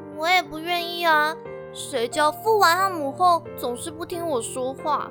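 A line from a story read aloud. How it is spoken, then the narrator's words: Sighing. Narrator (Chinese): 元宇叹了一口气说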